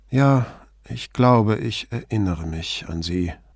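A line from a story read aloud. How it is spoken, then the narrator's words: Weak, faint voice. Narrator (German): sagte Lucrezia mit matter Stimme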